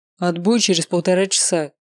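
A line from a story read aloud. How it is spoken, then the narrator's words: Stern. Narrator (Russian): строго сказал тренер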